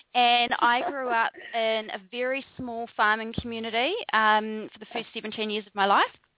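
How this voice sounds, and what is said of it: New Zealand accent. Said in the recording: “accent that doesn't ring of a Bali accent ... I'm a Kiwi, which is a New Zealander”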